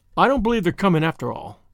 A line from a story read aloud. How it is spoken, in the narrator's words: said Marilla crossly